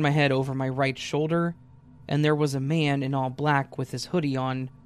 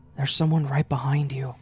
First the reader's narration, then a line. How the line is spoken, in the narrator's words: she whispers